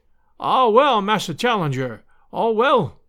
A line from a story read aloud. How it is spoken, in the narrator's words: he cried